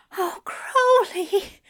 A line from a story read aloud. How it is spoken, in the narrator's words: Aziraphale cries out